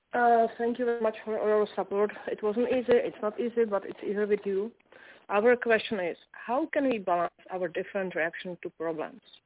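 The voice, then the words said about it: Heavily accented non-native English. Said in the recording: “I'm having a little trouble with your accent.”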